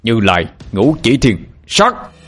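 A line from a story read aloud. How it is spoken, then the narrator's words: Loud shout. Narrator (Vietnamese): Ba Lành hét lớn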